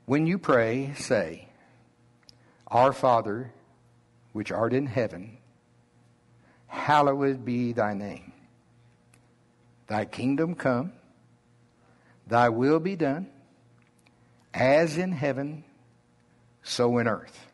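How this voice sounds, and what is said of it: Slow Oklahoma drawl. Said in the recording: “my slow Oklahoma drawl, my normal”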